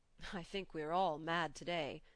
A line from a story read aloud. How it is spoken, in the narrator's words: said I, affecting to laugh